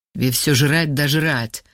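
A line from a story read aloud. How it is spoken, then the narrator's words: Angry mutter. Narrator (Russian): зло буркнул Вова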